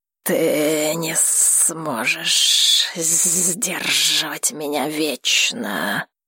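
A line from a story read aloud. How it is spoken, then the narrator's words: Furious hiss. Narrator (Russian): Дракон шипел в ярости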